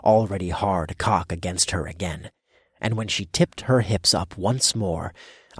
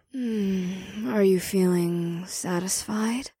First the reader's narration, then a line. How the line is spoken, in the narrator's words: She purred